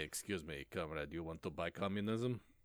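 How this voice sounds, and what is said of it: Put-on Russian accent. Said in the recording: “someone in a Russian accent”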